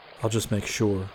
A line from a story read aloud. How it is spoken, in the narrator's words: he muttered to Tonto